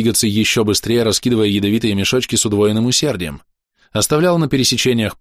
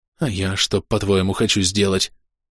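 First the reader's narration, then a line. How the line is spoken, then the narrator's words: Quiet snap, nervous giggle. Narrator (Russian): Тихо огрызнулся вор, нервно захихикал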